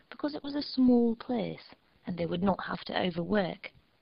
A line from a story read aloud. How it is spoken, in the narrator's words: Panessa cheerfully replied